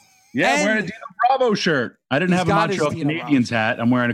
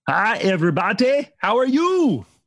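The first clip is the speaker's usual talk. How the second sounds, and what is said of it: Imitates a cartoon character's voice. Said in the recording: “Is that your Dino Bravo impression? ... That was actually my Dr. Nick Riviera from The Simpsons.”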